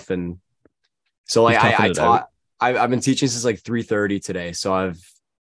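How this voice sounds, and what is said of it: Slightly scratchy voice. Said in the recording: “my voice is still a little scratchy”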